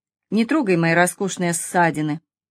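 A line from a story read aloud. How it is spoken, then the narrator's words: Quiet request, strained laugh. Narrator (Russian): Она попыталась засмеяться, попросив его тихо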